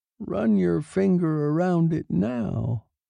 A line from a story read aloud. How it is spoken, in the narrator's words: he said quietly